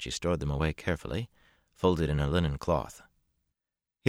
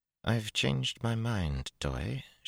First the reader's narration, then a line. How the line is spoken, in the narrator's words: she murmured